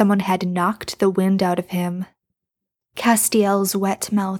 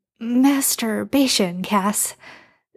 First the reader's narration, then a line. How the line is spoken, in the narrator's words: Sam said, his voice uneven